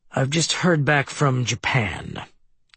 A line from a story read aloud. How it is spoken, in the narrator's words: Kalinske said with a muted growl in his voice